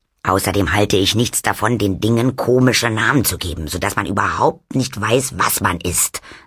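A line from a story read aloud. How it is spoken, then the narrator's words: Plain. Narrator (German): sagte Oma Wetterwachs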